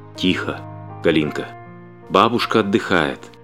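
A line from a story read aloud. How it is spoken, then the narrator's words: Whisper. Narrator (Russian): мама прошептала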